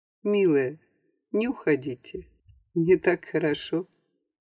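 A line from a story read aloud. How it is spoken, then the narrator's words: Barely audible repetition. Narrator (Russian): Куинджи снова повторил чуть слышно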